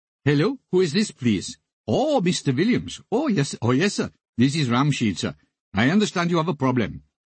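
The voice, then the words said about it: Over-the-top comic Indian accent. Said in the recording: “I started talking in a very cod, over-the-top, comic Indian accent.”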